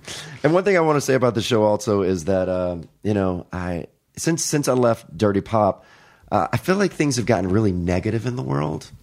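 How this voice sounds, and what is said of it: Deep, bassy voice from a cold. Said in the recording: “my voice is way more bassy than usual today. Of course, I catch a cold a few days ago ... I'm sorry if I sound very bassy today.”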